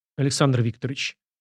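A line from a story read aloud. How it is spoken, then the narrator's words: Lifeless voice. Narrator (Russian): безжизненным голосом произнес граф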